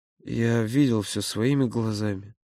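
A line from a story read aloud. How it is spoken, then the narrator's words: Quiet, plaintive. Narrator (Russian): тихо и будто жалобно произнес Володя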